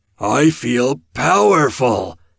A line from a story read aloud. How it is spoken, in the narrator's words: Evan boomed each word